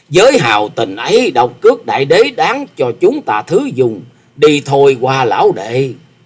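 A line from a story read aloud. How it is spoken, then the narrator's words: Hearty laughing speech. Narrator (Vietnamese): Phong Trần Túy Khách ha hả cười to nói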